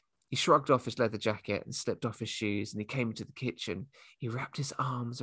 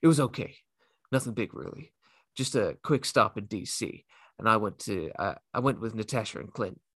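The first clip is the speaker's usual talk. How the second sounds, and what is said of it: Captain America voice. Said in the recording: “my Captain America accent”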